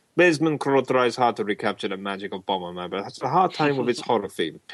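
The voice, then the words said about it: Put-on Russian accent. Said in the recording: “this has to be done in a Russian accent.”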